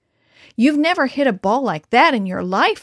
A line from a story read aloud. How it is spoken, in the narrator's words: exclaimed